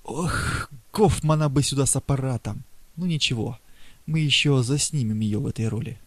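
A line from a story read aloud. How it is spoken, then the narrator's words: Hidden whisper. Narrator (Russian): Преста, скрывавшийся в саду, ... шептал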